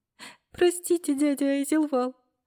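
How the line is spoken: Sobbing. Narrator (Russian): всхлипнула Белла

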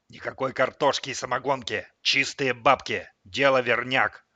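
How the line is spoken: Hissed into ear. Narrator (Russian): прошипел сынуле на ухо

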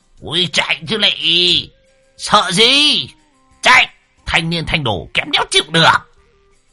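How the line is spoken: Excited howling. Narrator (Vietnamese): Lão hưng phấn đập bồm bộp vào cửa xe, lão rú lên như đời ơi sổ lòng

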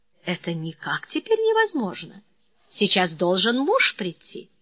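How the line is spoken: Quiet, bashful speech. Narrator (Russian): Она стыдливо зарделась и негромко произнесла

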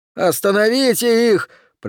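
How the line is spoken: Breathless strained shout. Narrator (Russian): прокричал Окси, с трудом преодолевая очередную ступеньку

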